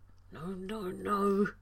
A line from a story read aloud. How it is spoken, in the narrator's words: John mumbled